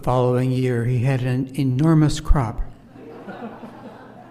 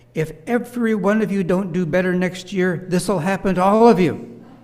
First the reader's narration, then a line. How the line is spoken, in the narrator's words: shouted